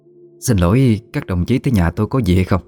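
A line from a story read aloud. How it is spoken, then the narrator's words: Forced calm, slightly raised. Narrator (Vietnamese): Bà cố giữ bình tĩnh, khẽ cao giọng hỏi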